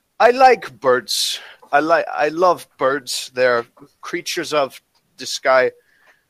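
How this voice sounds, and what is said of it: Put-on German accent. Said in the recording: “German accent.”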